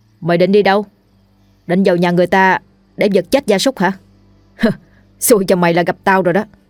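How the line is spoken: Cold voice. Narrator (Vietnamese): An lạnh lùng nói

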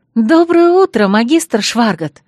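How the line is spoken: Forced cheerful greeting. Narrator (Russian): Бодро поздоровалась, изобразив рвение, хотя хотелось лечь и помереть

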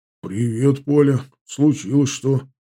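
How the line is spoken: Worried question. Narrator (Russian): сразу спросил встревоженным голосом

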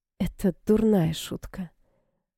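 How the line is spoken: Sighing. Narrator (Russian): вздохнула она

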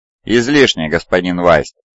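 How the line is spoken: Cold reply. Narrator (Russian): холодно ответил Цезарь

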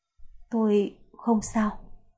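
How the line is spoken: Trembling voice. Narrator (Vietnamese): Môi Cố Hề Hề khẽ run, giọng nói run rẩy

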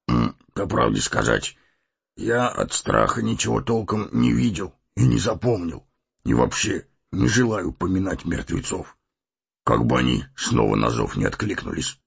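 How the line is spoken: Muttering. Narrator (Russian): пробормотал

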